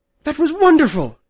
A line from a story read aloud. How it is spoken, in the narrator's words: she cried